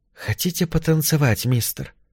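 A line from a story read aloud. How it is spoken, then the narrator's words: Indistinct female whisper. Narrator (Russian): прошептал Маршу в ухо невнятный женский голос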